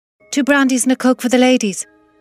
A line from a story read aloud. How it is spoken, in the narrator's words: the barman shout